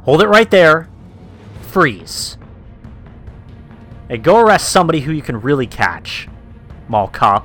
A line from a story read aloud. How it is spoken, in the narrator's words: somehow yell out